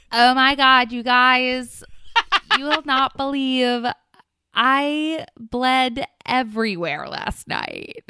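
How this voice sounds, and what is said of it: Imitates another person's voice. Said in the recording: “best Meg Hayes impression ... That is such a Meg thing to say.”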